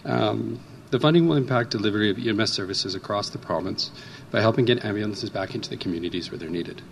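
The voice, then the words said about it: Hoarse voice. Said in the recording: “Pardon my voice, I'm a little bit hoarse”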